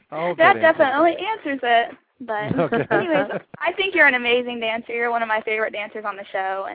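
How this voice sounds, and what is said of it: Ohio and North Carolina accent mix. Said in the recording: “You have a beautiful accent. ... I lived in Ohio, grew up in Ohio and North Carolina ... Kind of a mix between ... I detect it because I love North Carolina”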